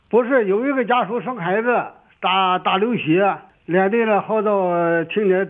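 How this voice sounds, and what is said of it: Mandarin with Shandong accent. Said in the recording (Chinese): “你这口音是哪里的呀？是山东的吗？”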